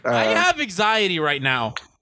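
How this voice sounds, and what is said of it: Yelling, anxious. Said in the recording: “You're yelling.”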